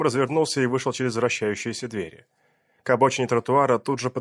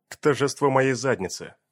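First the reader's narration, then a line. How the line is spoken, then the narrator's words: Grumbling. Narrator (Russian): проворчал вслед ему Бернс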